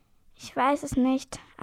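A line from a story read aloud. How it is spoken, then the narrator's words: Plain. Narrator (German): antwortet das Mädchen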